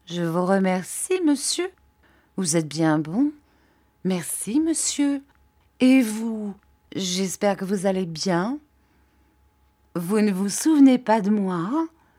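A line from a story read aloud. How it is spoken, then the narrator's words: Slow, flustered reply. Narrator (French): Il parut fort troublé … répondit lentement, selon son habitude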